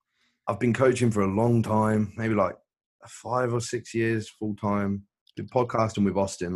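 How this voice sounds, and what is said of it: English accent. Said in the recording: “I'm from England. You can probably tell from the accent.”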